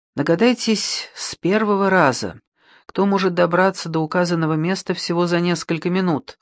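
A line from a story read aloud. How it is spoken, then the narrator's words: Heavy sigh, over radio. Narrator (Russian): Тяжело вздохнув, включил рацию на передачу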